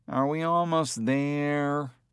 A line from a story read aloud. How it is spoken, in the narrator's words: the kid whined